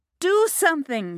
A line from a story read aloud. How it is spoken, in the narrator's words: shouted